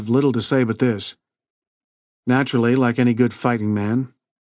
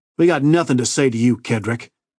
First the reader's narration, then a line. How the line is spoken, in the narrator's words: said harshly